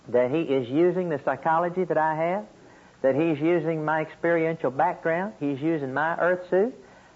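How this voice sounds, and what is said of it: Oklahoma Okie accent. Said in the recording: “my Okie accent”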